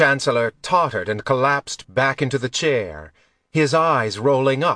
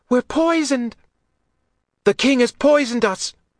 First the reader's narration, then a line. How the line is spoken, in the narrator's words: had shouted